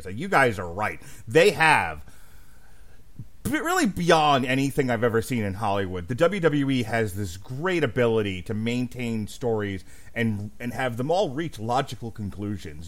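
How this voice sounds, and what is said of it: Sarcastic, facetious tone. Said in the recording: “Your facetiousness aside”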